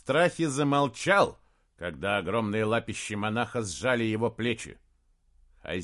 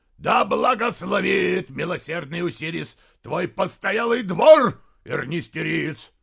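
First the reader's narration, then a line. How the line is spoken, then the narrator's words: Giant's deafening roar. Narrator (Russian): Великан взревел так, что люди стали поворачивать головы, даже на улице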